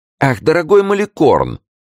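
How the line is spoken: Exclamation. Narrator (Russian): воскликнул де Сен-Эньян

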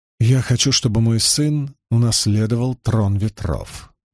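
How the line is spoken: Soft explanation. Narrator (Russian): мягко пояснила она

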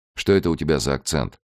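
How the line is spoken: Plain question. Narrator (Russian): спросил Фалько

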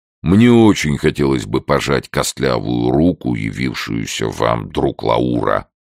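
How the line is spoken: Nearly thundering. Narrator (Russian): почти прогремел Питер

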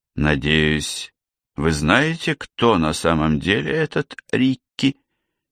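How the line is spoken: Quiet question. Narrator (Russian): тихо спросил Квинс

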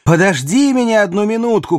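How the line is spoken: Shout. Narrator (Russian): крикнул Квентин де Ламарку

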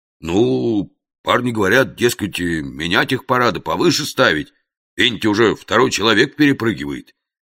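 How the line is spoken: Uncertain. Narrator (Russian): неуверенно резюмировал Фома

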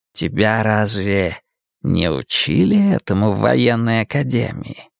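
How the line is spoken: Insinuating question. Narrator (Russian): вкрадчиво спросил он

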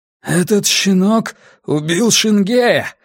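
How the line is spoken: Strangely trembling voice. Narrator (Russian): сказал лучник странно дрожащим голосом

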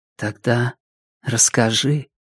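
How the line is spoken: Whisper. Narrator (Russian): шепнула она

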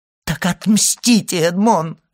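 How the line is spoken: Unhappy mother exclaiming. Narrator (Russian): воскликнула несчастная мать

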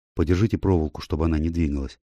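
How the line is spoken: Quiet request. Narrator (Russian): тихо попросил он

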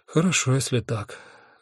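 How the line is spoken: Sighing. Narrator (Russian): вздохнула Афина

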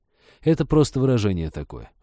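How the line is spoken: Sighing. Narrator (Russian): вздохнул Женька

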